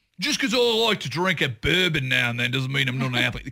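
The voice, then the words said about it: Imitated Australian teen accent. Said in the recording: “oh, my God, I like that accent ... Australians”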